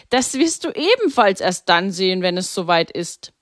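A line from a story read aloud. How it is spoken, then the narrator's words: Laughing. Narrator (German): lachte Pater Maximilian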